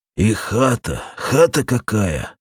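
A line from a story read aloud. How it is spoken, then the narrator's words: Muttering. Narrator (Russian): пробормотал Попеленко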